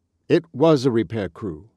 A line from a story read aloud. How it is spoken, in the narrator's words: said Mr